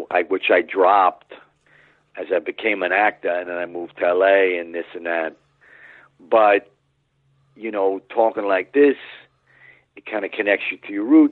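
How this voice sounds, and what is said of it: Thick New York accent. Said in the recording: “I grew up with a pretty thick New York accent like I'm doing right now. ... It's definitely a character voice. It's a little more of a subtle one.”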